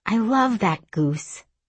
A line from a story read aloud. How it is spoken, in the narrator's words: I said